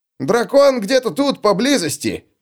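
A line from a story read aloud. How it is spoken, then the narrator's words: Yelled. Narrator (Russian): завопил Улли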